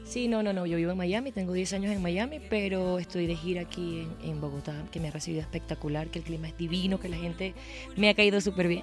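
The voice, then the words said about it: Venezuelan Spanish accent. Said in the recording (Spanish): “Mi acento es venezolano. ... Venezolanísima.”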